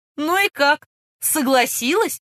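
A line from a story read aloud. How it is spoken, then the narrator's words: Loud laughter. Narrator (Russian): расхохотался лейтенант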